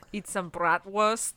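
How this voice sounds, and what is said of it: Bad put-on German accent. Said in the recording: “Fucking accent of all time. Sorry to the Germans out there.”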